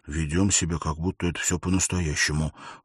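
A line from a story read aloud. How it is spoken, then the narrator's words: Whisper. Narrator (Russian): Он прошептал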